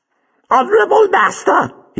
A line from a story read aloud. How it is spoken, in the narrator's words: he piped eerily